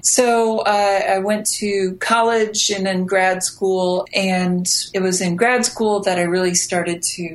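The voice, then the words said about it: American accent, Midwestern. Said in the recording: “as you can tell from the accent, I am American and grew up in the middle of America”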